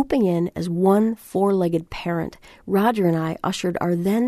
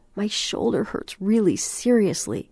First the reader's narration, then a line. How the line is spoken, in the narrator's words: told us between whimpers